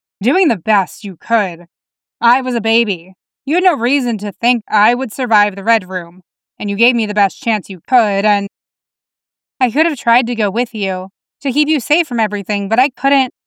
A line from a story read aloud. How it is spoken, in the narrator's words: says, fiercely, leaning forward